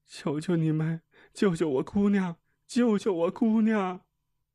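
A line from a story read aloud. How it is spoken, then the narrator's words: Sobbing, pleading repeatedly. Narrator (Chinese): 她哭得泣不成声，一个劲儿地说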